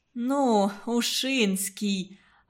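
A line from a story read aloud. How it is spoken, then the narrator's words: Offended drawl. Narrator (Russian): Обидясь, что ее поймали на незнании, протянула Марина Федотовна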